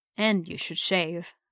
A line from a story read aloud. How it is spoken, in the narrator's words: he added thickly